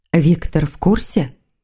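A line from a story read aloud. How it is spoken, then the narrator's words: Quiet question. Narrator (Russian): тихо спросила ведьма Маргариту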